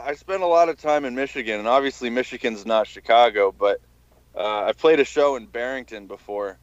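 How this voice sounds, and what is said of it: Strong Chicago accent. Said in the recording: “from Chicago? ... can fucking tell. ... Why is the accent strong?”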